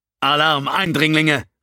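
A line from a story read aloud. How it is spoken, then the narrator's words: Loud echoing shout. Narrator (German): rief laut und seine Stimme hallte von den Wänden des Tunnels wieder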